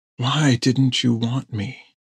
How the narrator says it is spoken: she whispered

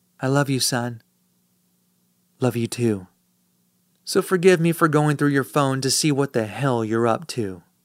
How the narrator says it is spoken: She smiles and whispers

